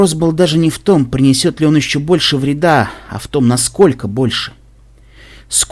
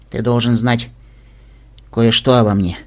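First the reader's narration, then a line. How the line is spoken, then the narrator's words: Sad. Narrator (Russian): печально сказал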